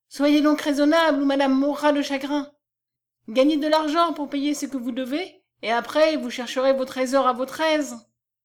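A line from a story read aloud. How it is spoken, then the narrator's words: Exclaimed. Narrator (French): s'écria Marion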